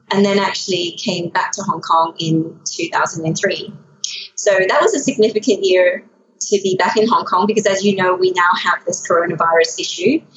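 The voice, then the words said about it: Slight Australian accent. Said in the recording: “sometimes you might hear an accent. ... Yes, I do hear an accent. ... That is a little bit Australian.”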